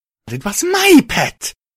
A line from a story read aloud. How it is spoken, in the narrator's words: she shrieked